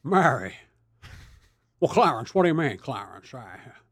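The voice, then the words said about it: Jimmy Stewart impression. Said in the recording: “Trying to do a Jimmy Stewart impression.”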